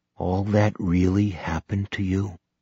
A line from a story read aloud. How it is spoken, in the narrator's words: John asked in a subdued voice